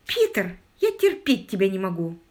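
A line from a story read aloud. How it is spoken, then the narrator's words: Exclaimed. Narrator (Russian): воскликнула Мэри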